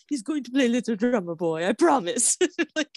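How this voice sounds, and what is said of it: Imitating the Colonel's accent. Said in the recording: “I can't do the accent. ... No, you're very good at this accent.”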